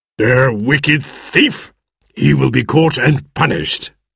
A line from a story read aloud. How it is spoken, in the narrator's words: growled Squire Trelawney